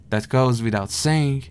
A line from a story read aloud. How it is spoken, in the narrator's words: scoffed the man in the burlap sack